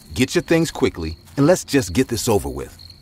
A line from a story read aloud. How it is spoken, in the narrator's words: I said in an irritated voice